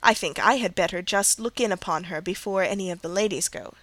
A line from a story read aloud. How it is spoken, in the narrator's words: said Colonel Dent